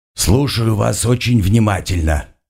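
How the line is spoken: Grumbling old man. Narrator (Russian): ворчливым голосом произнес невысокий, но крепкий седой старик

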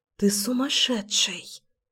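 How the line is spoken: Enchanted whisper. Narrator (Russian): прошептала я зачарованно

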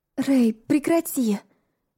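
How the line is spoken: Breathless pleading. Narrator (Russian): тяжело дыша взмолилась я

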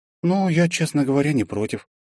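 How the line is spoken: Heavy sigh. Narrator (Russian): тяжело вздохнула Лиза

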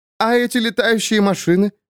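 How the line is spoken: Laughing. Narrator (Russian): смеясь говорила она Лене

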